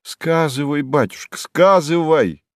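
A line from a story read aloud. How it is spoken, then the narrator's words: Exclaimed, mother. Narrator (Russian): воскликнула матушка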